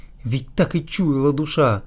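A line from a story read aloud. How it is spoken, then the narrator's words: Sobbing while walking. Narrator (Russian): всхлипывал на ходу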